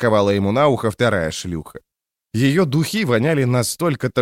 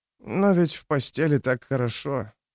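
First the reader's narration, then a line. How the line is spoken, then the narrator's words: Mumbled. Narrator (Russian): пробормотал он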